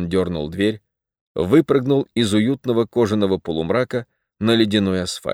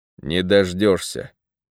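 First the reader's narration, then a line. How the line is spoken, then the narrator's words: Mutter. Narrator (Russian): пробормотал он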